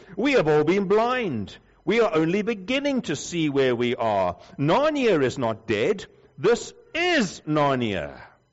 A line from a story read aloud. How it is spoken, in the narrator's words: cried